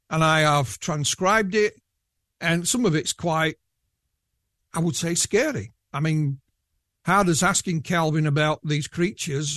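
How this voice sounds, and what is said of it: Yorkshire accent. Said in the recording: “I know I don't sound, with my Yorkshire accent, particularly scary”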